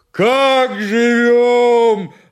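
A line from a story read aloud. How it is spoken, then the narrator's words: Yelling. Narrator (Russian): опять завопил Семен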